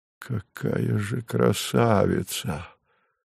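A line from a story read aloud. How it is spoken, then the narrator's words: Admiring breathless exclamation. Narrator (Russian): с восхищением выдохнул Савва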